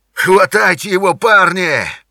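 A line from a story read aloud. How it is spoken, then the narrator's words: Furious shaking shout. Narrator (Russian): заорал он, трясясь от злости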